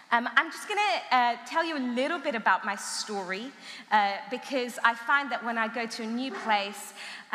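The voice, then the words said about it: Mixed Armenian-Iranian-English accent. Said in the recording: “trying to figure out my accent... I was born in Iran. I'm ethnically Armenian... my family moved over to England. I grew up in England”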